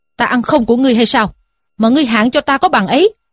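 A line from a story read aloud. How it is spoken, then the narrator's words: Angry question. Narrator (Vietnamese): Trí Thâm nghe nói tức giận quắc mắt lên mà hỏi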